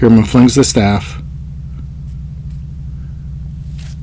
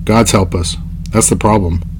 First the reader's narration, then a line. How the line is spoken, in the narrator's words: says Raistlin